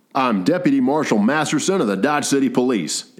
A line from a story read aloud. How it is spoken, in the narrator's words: Ed replied